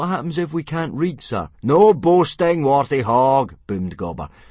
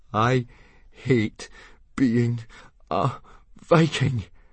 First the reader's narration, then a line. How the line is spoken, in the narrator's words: panted Fishlegs to Hiccup as they stumbled back through the bracken